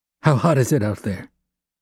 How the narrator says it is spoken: Franz asked nervously

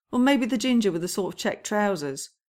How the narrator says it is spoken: Lestrade says, chuckling

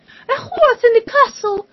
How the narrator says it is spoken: the queen screamed

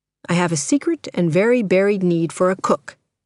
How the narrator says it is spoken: Danny said

